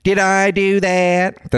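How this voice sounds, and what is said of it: Steve Urkel impression. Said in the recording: “a Steve Urkel impression ... That's Steve Urkel ... They're identical impressions”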